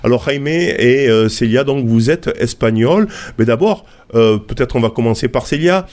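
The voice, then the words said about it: Spanish accent speaking French. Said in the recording (French): “rien qu'avec mon accent, vous avez compris que, eh ben, on, on va parler d'Espagne”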